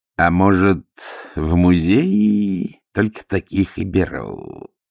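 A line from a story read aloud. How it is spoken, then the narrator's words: Sudden, nasty voice. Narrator (Russian): Вдруг проговорил кто-то мерзким голосом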